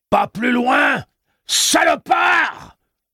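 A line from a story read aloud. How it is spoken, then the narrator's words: Yelled. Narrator (French): hurla Delavan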